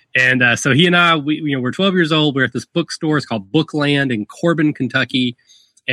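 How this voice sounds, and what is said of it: Southern US Kentucky accent. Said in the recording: “I'm from very rural Kentucky. If the accent hasn't given it away, I am from the south.”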